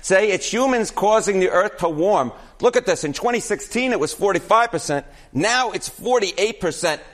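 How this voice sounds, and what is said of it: Exaggerated New York accent. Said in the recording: “This is an all New York accent hit ... You're leaning into that ... Now I really am leaning into the New York accent.”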